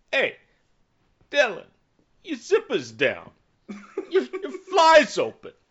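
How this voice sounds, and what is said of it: Impression sounding like New York Italian. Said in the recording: “I can't do a Christopher Walken impression, ... My Christopher Walken sounds more like an Italian from New York”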